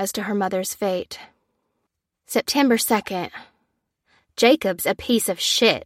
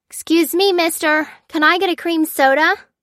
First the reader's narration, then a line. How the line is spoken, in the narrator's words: Lucy shouted, straining over the music her parents liked